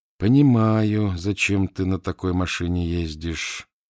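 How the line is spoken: Thoughtful. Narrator (Russian): задумчиво сказал татарский

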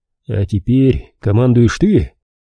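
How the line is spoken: Chuckling. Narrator (Russian): Карнаух с Иоганном хохотнули

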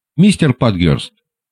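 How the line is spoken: Embarrassed hurried speech. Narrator (Russian): он заговорил сконфуженно и торопливо

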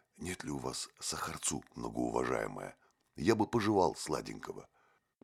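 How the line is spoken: Matter-of-fact whisper. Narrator (Russian): прозаично докончил шепотом

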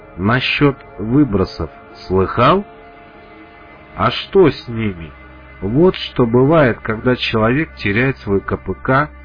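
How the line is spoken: Sighing. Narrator (Russian): вздохнул Меченый

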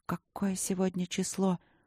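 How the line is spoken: Whisper. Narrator (Russian): прошептала я

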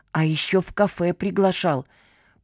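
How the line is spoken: Contemptuous, through clenched teeth. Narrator (Russian): презрительно процедила Кисонька

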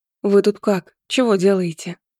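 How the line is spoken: Timid question. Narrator (Russian): робко спросила я

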